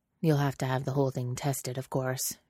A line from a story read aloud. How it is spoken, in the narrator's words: Jack says in an undertone